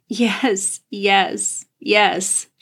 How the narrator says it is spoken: she sobbed into his shoulder

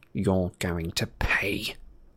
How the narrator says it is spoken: said Malfoy in a voice barely louder than a whisper

